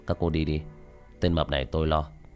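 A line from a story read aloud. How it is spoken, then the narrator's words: Cold, dismissive. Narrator (Vietnamese): Tiểu Thất cười nhạt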